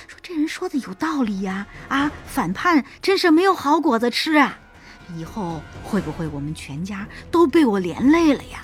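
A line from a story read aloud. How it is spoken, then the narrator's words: Muttering. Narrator (Chinese): 有人在底下嘀嘀咕咕的说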